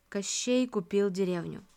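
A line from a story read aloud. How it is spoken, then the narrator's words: Matter-of-fact tone. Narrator (Russian): будничным тоном сообщил мне Черномор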